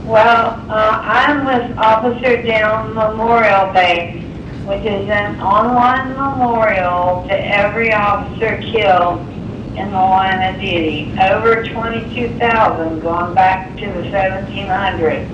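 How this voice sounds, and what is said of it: Hoarse, laryngitic voice. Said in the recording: “Have a little laryngitis.”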